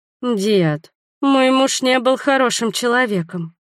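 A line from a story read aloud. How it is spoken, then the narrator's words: Sad reminder. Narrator (Russian): грустно напомнила я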